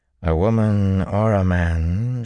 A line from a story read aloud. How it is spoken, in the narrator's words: she drawled at last